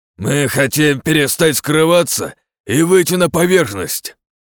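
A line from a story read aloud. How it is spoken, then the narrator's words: Hoarse growling voice. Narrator (Russian): разорвал хриплый рычащий голос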